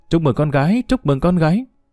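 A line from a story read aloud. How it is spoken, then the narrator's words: Smiling. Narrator (Vietnamese): chủ chứa Hắc Mẫu Đơn mỉm cười nói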